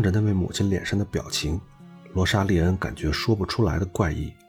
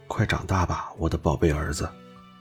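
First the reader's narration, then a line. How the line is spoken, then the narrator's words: Mother murmuring. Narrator (Chinese): 他的母亲喃喃地说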